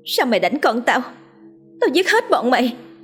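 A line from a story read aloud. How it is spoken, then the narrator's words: Furious scream. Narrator (Vietnamese): Cô trợn mắt thét lên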